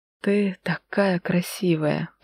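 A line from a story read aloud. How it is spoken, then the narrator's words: Hoarse vibrating voice. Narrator (Russian): прохрипел он, и от вибрации его голоса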